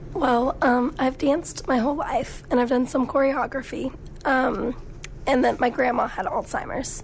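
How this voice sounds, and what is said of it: Hoarse, strained voice. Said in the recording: “you are suffering from laryngitis, so we're not going to let you go too far in terms of stressing out your voice”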